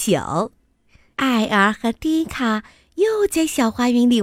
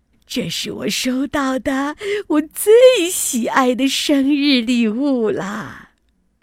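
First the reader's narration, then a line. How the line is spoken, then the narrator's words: Beaming with delight. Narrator (Chinese): 笑得合不拢嘴，他说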